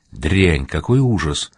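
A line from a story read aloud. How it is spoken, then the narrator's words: Muttering. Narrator (Russian): пробормотала Пима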